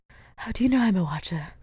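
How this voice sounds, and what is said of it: Imitates a character's voice. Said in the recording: “doing the Giles voice ... It's good. It's good.”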